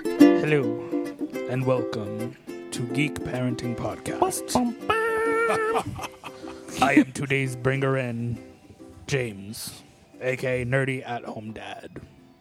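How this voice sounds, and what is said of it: Put-on announcer radio voice. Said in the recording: “This is my radio voice, which is why I don't work in radio, because it's terrible. ... Yeah, that wasn't very good. ... I was trying to go like Orson Welles”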